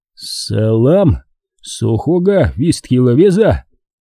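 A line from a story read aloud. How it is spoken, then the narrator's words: Hoarse mutter, weak with fear. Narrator (Russian): хрипло пробормотал я, на ватных ногах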